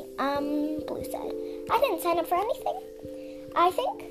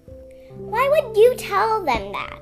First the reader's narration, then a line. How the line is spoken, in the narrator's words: Sundew snapped in a burst of fury